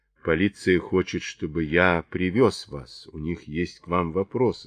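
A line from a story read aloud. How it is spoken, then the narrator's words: Plain. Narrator (Russian): сказал Чарли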